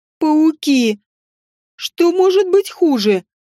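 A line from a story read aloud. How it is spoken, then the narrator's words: Moaning. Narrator (Russian): простонала Элла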